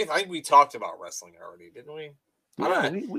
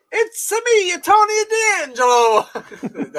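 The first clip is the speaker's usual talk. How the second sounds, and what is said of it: Bad put-on Italian accent. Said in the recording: “I can't even do an Italian accent ... I'll just start sounding like fucking Mario, which is terrible ... that ain't it, pal.”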